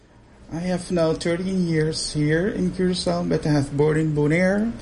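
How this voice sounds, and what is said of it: Curaçao accent, mixed regional features. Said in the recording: “This is from Curaçao. ... it's a big soup of accent features from various places.”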